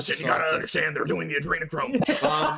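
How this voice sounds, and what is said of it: Imitates another person's voice. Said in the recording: “you gotta do that impersonation more because it's solid ... I do a very good Alex Jones”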